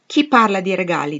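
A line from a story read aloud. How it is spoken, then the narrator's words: Gruff question. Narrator (Italian): domandò egli in tono burbero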